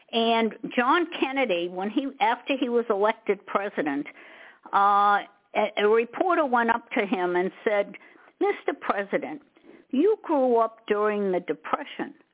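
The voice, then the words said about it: Massachusetts accent. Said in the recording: “I originally came from Massachusetts. Maybe you could tell from my accent.”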